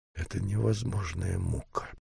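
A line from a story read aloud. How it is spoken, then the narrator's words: Whispered. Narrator (Russian): прошептал он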